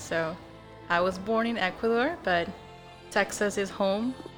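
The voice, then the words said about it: Non-native English accent. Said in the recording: “I am not from here, as perhaps you may hear my accent.”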